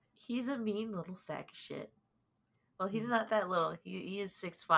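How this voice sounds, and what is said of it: Usual voice. Nothing is said of it.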